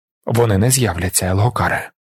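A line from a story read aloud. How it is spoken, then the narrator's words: Quiet. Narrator (Ukrainian): тихо промовив Далінар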